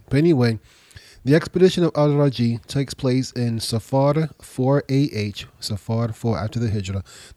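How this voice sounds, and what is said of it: Slightly nasal, congested voice. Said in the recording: “I'm just getting over a cold. So if I sound a little nasally, it's because I'm probably still got a little bit of congestion within me.”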